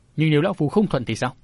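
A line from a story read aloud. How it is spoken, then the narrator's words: Cold voice. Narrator (Vietnamese): lạnh lùng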